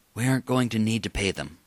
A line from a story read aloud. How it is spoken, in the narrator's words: Huff whispered